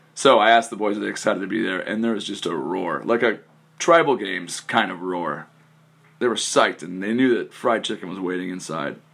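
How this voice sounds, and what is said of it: Hoarse, strained voice. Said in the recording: “I yelled loud enough that I made myself hoarse on day one ... I blew out my voice”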